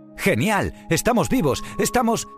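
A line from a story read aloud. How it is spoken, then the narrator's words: Surprised woman exclaiming. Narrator (Spanish): exclamó Baiana mientras miraba sorprendida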